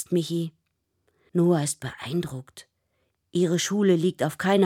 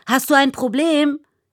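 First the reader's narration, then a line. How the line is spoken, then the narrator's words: Shrill shriek. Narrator (German): kreischt die Radfahrerin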